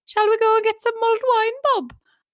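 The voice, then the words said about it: Attempted Birmingham accent. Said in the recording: “I'm not very good at the Birmingham accent”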